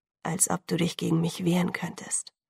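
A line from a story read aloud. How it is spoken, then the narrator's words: Gentle. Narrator (German): sagte er sanft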